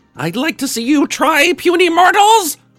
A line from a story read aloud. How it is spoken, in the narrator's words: roared another one of his heads